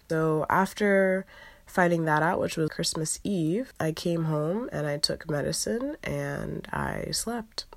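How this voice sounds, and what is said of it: Sick voice, still recovering. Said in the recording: “my voice sounds like it does right now, because I'm still recovering from the flu”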